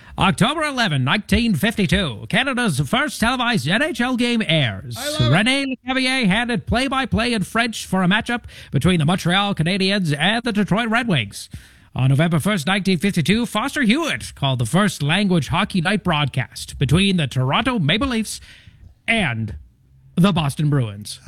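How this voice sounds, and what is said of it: Old-timey radio announcer voice. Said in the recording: “doing your old timey radio voice for hockey ... the old timey radio voice”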